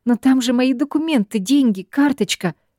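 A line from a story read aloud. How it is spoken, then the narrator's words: Confused exclamation. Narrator (Russian): воскликнула я, сама не поняв произнесенного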